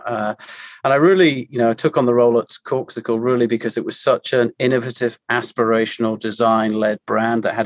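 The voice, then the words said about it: British English accent. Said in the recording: “you can tell from my accent, I am a, Brit residing uh, in the US”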